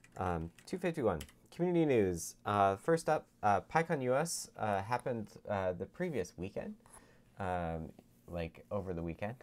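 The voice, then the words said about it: Radio announcer voice. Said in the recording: “I got my radio voice today.”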